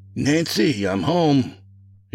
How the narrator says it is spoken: shouted

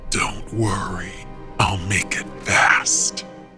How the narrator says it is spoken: he rasped

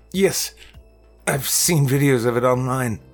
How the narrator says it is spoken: I stammered fearfully

